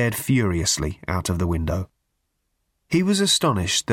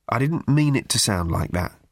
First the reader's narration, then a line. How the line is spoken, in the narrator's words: said Arthur